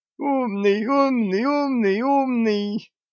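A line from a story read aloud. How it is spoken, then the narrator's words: Howling undead. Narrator (Russian): взвыла нежить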